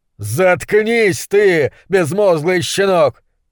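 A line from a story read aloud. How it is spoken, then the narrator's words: Monstrologist yelling. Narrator (Russian): заорал монстролог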